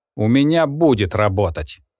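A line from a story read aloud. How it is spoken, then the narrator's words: Irritated. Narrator (Russian): раздраженно отвечает Том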